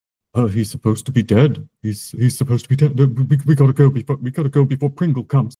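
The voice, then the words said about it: Deep voice filled with dread. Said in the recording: “this sort of deep voice that, with a 16, you can tell is filled with a certain amount of dread”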